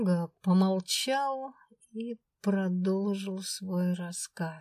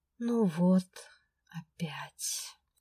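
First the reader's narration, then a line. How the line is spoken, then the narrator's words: Genuine sigh. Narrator (Russian): Неподдельно вздохнул он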